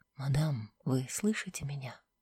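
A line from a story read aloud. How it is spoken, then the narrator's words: Quiet calling. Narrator (Russian): король тихо позвал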